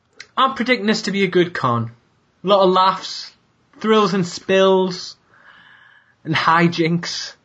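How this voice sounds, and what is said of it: Cockney English accent. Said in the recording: “Cockney accent”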